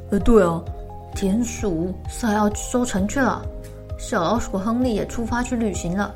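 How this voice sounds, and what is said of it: Quiet, hushed speech. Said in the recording (Chinese): “小声地说”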